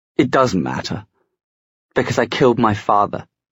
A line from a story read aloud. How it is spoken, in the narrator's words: Gabriel said in a shaking voice